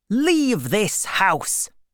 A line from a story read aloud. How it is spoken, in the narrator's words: she said angrily